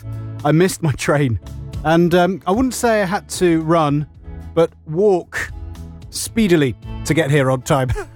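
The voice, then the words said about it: Slightly out of breath. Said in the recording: “bit out of breath.”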